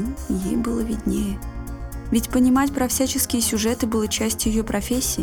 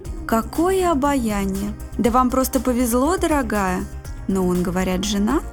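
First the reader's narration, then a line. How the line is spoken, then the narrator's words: Ambiguous sympathetic or gloating sigh. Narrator (Russian): Евграфова то ли с сочувствием, то ли со злорадством вздохнула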